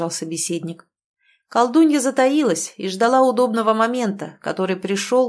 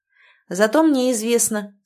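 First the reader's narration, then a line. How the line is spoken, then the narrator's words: Calm. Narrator (Russian): спокойно проговорил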